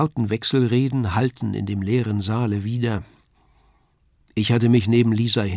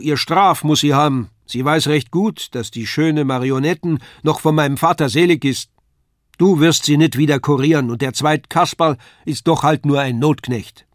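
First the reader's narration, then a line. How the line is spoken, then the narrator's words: Woman calling out. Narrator (German): rief die Frau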